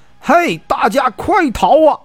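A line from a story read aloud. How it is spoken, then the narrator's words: Loud shout. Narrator (Chinese): 便高喊一声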